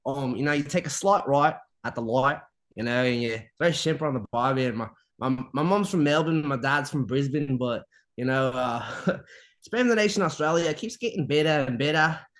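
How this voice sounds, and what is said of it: Put-on Australian accent. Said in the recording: “practice my Australian accent ... But I've been practicing Australian.”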